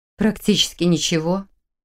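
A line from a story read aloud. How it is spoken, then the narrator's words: Gloomy reply. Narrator (Russian): мрачно ответила она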